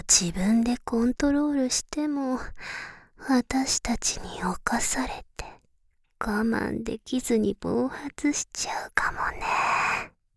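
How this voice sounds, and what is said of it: Whispering. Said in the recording (Japanese): “すぐささやかれるとビクビクってしちゃってる ... こうやってささやかれるたびに背中からゾワゾワ”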